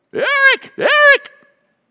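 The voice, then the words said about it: Screaming imitation of another person. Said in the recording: “he'd be screaming ... that's actually a very good impersonation”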